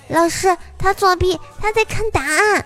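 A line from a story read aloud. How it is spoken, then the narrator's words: Shouting accusation. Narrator (Chinese): 怪兽兽居然指着鲁大先生大叫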